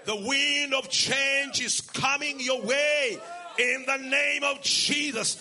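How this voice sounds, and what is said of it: Strong accent. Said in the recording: “Some of you are trying to work so hard to catch my accent”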